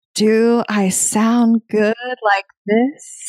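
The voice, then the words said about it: Sexy radio announcer voice. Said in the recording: “We were talking in our sexy radio voice.”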